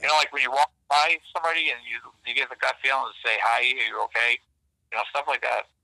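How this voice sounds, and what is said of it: Boston accent. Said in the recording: “my voice, Boston accent”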